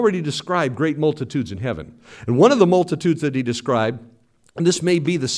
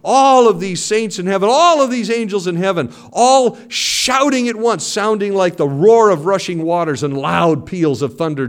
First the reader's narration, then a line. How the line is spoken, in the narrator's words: John says, shouting